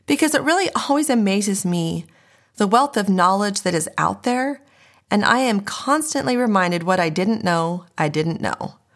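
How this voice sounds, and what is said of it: Scratchy voice. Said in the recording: “my voice is a little scratchy. I've had a cold”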